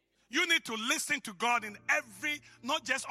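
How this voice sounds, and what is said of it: Usual voice. Nothing is said of it.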